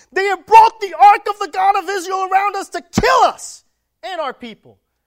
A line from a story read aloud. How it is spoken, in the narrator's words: the Ekronites cried out saying